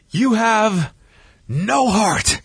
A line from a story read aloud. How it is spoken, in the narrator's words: Ric Flair yelling at Eric